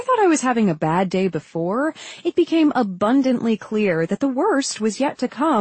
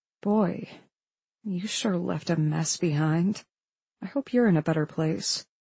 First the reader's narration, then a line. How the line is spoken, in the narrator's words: I whispered to him under my breath